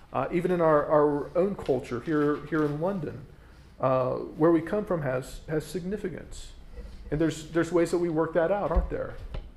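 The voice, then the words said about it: North American accent. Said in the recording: “my accent tells you that I'm from somewhere in North America. Most people hope it's Canada. It's not.”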